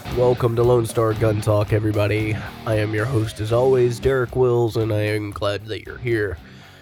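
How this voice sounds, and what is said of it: Sick, congested-sounding voice. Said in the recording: “my voice sounds different, it's because I got the crud ... I'm feeling a bit under the weather”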